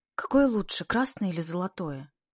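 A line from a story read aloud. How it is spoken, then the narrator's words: Exhausted voice. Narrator (Russian): Ксенька спрашивает измученным голосом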